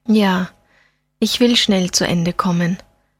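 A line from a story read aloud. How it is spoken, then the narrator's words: Said sadly. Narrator (German): sagte Fabeck traurig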